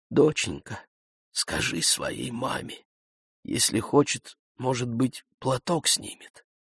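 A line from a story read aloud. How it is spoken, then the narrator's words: Quiet woman. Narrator (Russian): та же задняя тетенька тихонько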